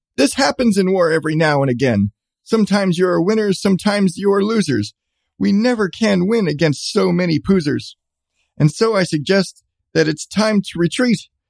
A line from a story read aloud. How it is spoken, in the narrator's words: Genghis Khan Schmitz shouted out to his men